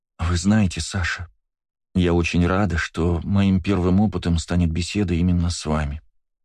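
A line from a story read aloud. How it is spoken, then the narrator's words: Cooing. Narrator (Russian): ворковала Кристина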